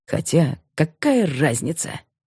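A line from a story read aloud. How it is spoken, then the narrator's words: Strange snort. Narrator (Russian): Илюшин как-то странно хмыкнул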